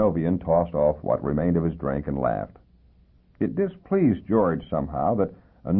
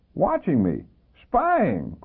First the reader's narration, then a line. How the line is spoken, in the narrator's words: cried the Novian